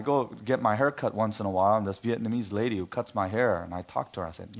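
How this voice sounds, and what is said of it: Usual voice. Nothing is said of it.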